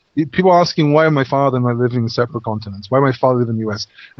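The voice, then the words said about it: English accent. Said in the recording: “I don't have an American accent. My accent is English.”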